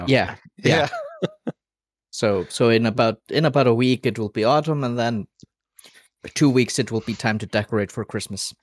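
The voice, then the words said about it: Canadian-sounding accent. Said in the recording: “when did you get a Canadian accent?”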